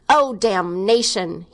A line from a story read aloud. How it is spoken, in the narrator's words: he exclaimed perversely